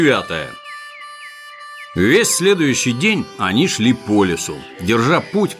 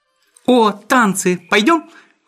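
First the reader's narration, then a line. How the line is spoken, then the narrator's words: Excited exclamation. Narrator (Russian): воскликнула Фрюкин Снорк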